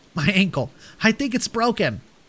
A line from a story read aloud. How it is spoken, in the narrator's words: Trinity exclaimed